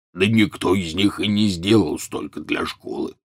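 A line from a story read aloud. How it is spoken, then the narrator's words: Grumbling. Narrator (Russian): проворчал Хагрид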